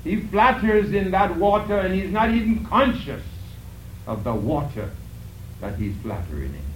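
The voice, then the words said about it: Speaks with a noticeable accent. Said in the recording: “my little accent there. Sometimes I slip off.”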